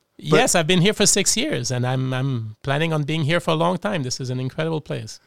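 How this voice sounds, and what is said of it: French-Canadian accent with Australian tinge. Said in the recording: “listen to this accent, folks. It's a French-Canadian Aussie accent. ... With a bit of New Jersey in it”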